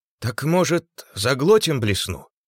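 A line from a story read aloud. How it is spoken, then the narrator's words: Uncertain suggestion. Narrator (Russian): неуверенно предложил швец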